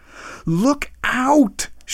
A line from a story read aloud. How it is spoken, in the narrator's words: shouted Professor Wyatt